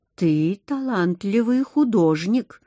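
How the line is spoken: Calm telling. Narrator (Russian): спокойно поведал

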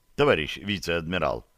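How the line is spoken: Plain. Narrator (Russian): сказал президент

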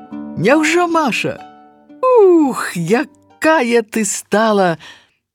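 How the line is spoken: Laughing loudly. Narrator (Belarusian): зарагатаўшы

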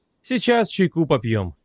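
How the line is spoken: Affectionate voice. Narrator (Russian): ласковым голосом сказала Александра Евгеньевна

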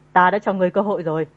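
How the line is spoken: Cold. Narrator (Vietnamese): Hắn lạnh lùng nói

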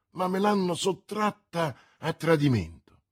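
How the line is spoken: Exclaiming. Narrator (Italian): esclamò D'Artagnan

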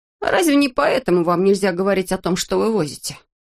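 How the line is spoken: Sigh. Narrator (Russian): Штурман вздохнул

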